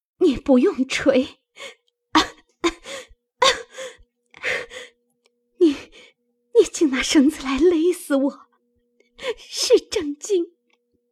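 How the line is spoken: Weak, breathless. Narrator (Chinese): 黛玉扶枕喘息了半晌，道

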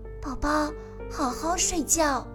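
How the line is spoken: Tender lullaby singing. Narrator (Chinese): 阿奇急忙用最温柔的声音给小蝙蝠唱起了催眠曲

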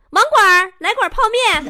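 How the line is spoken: Several people shouting. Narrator (Chinese): 几个人搁电话旁边喊

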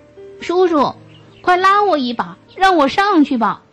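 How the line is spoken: Loud shout. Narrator (Chinese): 他大声喊道

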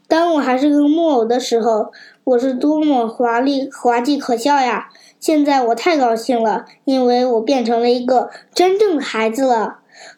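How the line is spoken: Sighing. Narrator (Chinese): 匹诺曹叹气道

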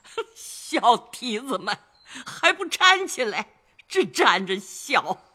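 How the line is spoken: Old woman's laughing scold. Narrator (Chinese): 贾母笑骂道

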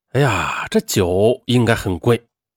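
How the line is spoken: Admiring exclamation. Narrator (Chinese): 他不由对妻子赵如感叹道

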